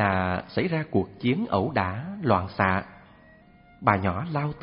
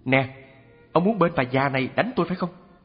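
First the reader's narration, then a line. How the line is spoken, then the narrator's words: Shouting. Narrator (Vietnamese): cũng la quát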